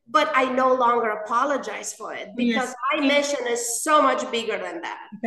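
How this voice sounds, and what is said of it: Non-native English accent. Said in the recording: “You hear my accent. I'm still mispronounced things.”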